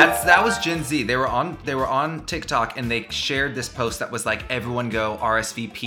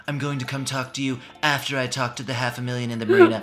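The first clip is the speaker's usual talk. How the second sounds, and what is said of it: Imitates another person's voice. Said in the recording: “did a Trump impersonation? ... You're so good at that.”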